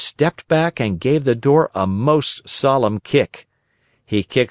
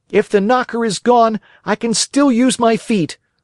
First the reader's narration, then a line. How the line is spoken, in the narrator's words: cried Pinocchio, blind with rage